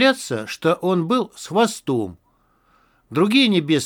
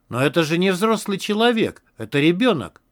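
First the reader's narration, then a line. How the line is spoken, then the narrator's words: Exclaimed. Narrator (Russian): воскликнул он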